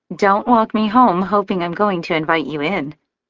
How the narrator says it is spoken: she chirps playfully

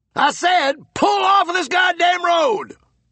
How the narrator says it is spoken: Blister roared

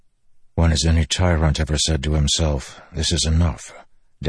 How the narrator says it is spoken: Dalinar whispered, remembering words Gavilar had once spoken

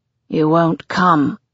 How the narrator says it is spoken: growls

